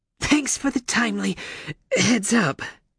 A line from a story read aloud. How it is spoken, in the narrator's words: she wheezed